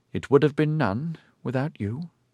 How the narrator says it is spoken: he said quietly

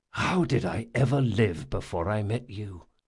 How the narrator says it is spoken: whispered Jean

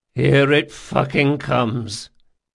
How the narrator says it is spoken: muttered Mum Chance

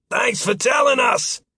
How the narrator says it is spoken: sailors shouted

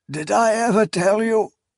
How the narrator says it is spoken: Kelmomas said, his voice cracking with futile pride

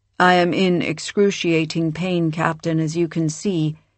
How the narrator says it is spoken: Sardis said flatly

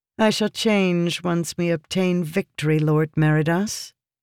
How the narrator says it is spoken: Yasna replied flatly

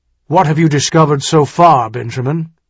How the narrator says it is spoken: he asked harshly

